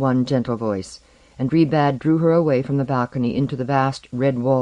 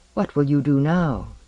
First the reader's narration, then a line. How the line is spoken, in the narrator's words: she said in her gentle voice